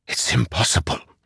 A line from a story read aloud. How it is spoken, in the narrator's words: Zeth whispered